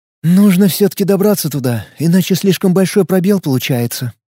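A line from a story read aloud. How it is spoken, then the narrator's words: Sigh. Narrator (Russian): вздохнула Таиса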